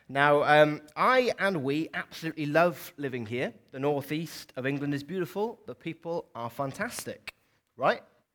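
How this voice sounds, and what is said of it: South Welsh accent, not Geordie. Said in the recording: “as you can probably tell from my accent, I am not a Geordie ... grew up in South Wales”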